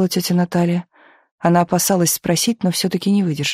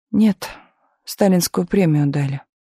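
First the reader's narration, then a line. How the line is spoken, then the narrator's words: Tired reply. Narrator (Russian): также устало ответила Галина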